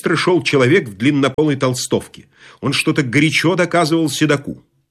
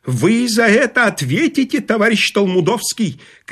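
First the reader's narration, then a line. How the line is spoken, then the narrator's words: Shouting. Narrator (Russian): кричал длиннополый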